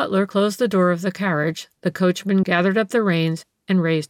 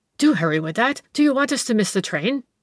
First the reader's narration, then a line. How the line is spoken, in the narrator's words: the gentleman exclaimed nervously